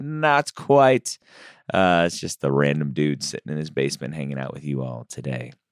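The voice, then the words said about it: Slightly off, deeper radio-like voice. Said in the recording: “My voice is still a little off after battling a cold, so I'm a little more radio voice”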